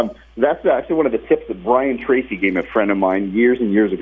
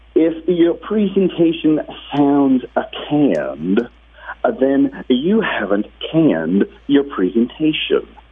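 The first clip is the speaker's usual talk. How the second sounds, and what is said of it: Imitates another person's voice. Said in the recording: “the Zig Ziglar accent ... my best Zig Ziglar impersonation. It's horrible, I know.”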